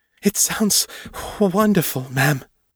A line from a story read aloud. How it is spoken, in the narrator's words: gasped